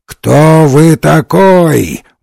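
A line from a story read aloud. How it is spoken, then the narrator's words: Fat man roaring. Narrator (Russian): взревел толстяк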